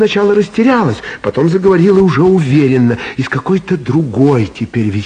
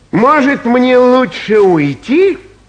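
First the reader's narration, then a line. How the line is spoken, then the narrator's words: Loud, voice trembling with hurt. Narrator (Russian): громко спросил Васька, и голос его дрогнул от обиды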